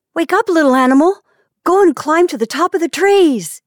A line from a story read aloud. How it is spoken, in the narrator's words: he shouted in a shrill voice